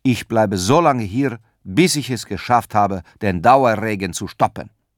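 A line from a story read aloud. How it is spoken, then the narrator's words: Firm voice. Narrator (German): sagte Petrus mit fester Stimme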